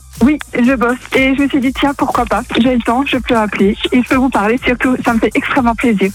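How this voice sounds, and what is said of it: Alsatian French accent. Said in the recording (French): “t'es alsacienne ... j'ai reconnu un peu l'accent ... c'est vrai qu'on l'entend assez bien”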